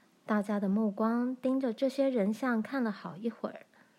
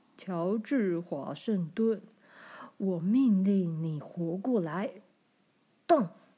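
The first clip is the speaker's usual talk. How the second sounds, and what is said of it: Deep, low voice. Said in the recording (Chinese): “她以一种深沉的声音说道”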